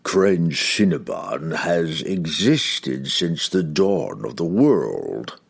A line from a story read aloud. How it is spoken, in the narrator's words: the demon rasped